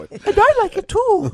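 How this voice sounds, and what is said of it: Irish accent in a girl's voice. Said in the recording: “can you do the Irish accent ... As a girl's voice ... talks with the Irish accent”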